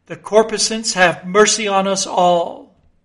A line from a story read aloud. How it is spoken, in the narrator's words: immediately shifting his tone, he cried